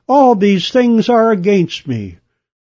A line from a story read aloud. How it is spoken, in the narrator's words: In desperation, he had cried